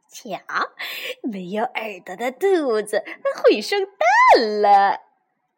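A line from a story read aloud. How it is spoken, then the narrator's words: Mocking laughter, group. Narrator (Chinese): 其他的兔子都笑他说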